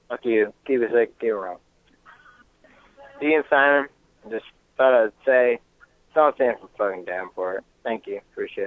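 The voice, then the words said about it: Southern American accent. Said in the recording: “Is it a Southern accent? ... Southern I- American accent? ... he's from the south of America”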